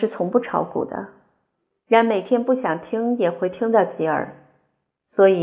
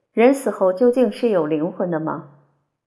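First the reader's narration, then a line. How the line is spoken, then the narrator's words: Plain. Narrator (Chinese): 他问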